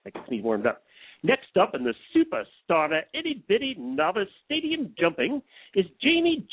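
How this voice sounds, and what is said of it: Usual voice. Nothing is said of it.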